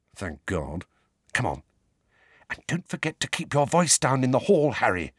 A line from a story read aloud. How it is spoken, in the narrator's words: Hermione whispered